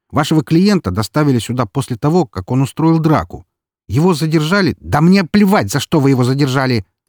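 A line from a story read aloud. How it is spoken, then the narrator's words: Impatient bark. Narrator (Russian): рявкнул я, уже начиная терять терпение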